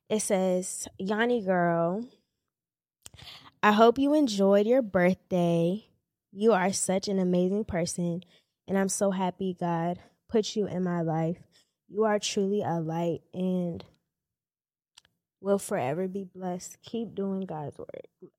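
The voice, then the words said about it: Emotional, choked-up reading voice. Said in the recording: “I'm getting emotional”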